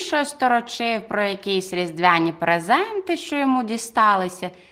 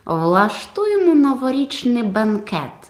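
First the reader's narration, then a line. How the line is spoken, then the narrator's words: Plain. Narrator (Ukrainian): відповів Монс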